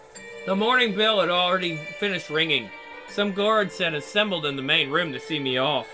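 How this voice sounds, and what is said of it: Hoarse, strained voice. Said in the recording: “I'm hoarse.”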